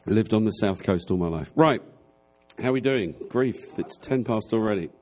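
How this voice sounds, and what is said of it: Southern English accent. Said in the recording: “I'm from the south, but I'm from the south of England, so I have a slightly different accent.”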